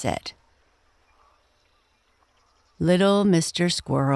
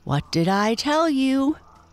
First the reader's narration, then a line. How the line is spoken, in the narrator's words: cried Jimmy triumphantly to Peter